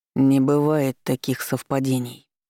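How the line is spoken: Hissing again. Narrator (Russian): снова зашипел Виктор

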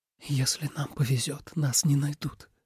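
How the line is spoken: Whisper. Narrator (Russian): прошептал Тобиас

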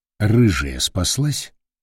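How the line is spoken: Very quiet reply. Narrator (Russian): Капитан очень тихо ответил

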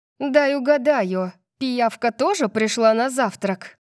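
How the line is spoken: Growled defiantly, slightly afraid. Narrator (Russian): Я зарычала, пытаясь противостоять ему, несмотря на струйку страха

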